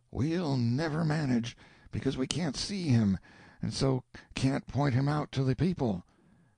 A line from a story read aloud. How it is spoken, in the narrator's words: the whispers said